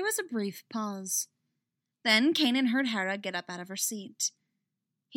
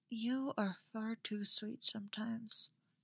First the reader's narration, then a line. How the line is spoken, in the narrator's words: Hera murmured into his back